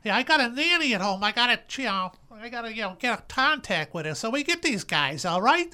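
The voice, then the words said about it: Exaggerated Brooklyn Bronx accent. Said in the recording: “hitting the Brooklyn Bronx accent a little too hard”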